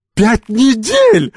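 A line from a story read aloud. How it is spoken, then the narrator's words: Delighted shout. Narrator (Russian): закричала она в восторге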